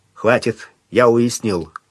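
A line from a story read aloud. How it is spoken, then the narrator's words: Gloomy. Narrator (Russian): мрачно сказал Сварог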